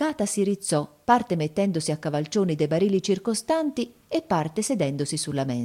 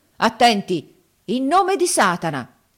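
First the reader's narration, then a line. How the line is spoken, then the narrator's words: Solemn shout. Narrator (Italian): gridò poi con aria solenne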